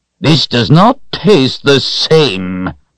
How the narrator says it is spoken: she said in her mean voice

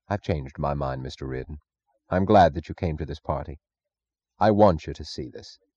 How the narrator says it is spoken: Francisco said very quietly

